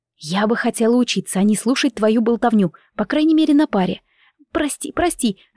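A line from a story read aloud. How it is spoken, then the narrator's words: Babbling. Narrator (Russian): залепетала она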